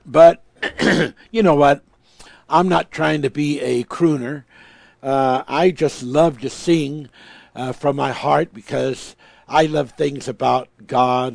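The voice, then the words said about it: Slightly hoarse voice. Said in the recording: “I'm a little bit hoarse.”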